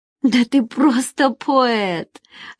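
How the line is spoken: Laughing. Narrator (Russian): рассмеялась Надежда

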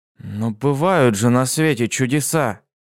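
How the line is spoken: Uncertain. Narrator (Russian): неуверенно произнес он

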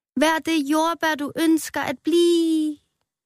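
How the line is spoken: Shouting. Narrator (Danish): råbte

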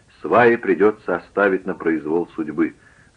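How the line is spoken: Plain. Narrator (Russian): сказал Хичкок

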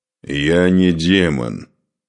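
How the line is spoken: Growl. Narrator (Russian): прорычал Духарев

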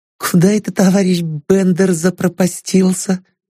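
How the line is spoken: Thin high voice. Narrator (Russian): сказала она тоненьким голосом

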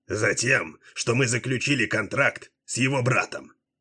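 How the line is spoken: Angry. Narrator (Russian): зло произнес Дилуло

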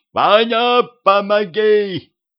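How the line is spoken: Shout. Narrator (Russian): крикнул мне Петрович

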